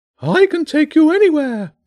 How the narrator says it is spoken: the bishop cried joyfully

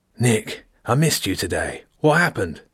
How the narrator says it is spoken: There was real concern in the old, croaky voice

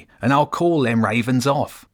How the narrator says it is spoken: the rat said sharply

